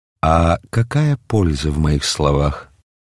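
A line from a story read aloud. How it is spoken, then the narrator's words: Weary. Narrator (Russian): устало произнес Мельхиор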